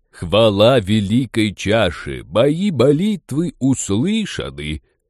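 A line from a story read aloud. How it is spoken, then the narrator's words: Pompous announcement. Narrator (Russian): Пафосно объявил шаман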